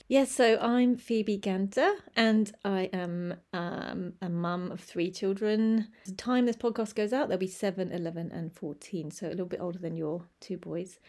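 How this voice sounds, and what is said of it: English accent. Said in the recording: “I am English, as you can probably tell from my accent”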